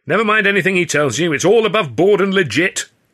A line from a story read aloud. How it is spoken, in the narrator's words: Hurley called out